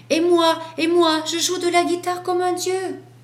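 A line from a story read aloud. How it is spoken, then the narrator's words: Dog yelling. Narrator (French): hurla le chien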